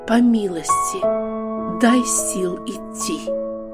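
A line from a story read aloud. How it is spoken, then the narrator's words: Contrite silent heartfelt whisper. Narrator (Russian): Хананиянка поклонилась всем сокрушением души и только сердцем прошептала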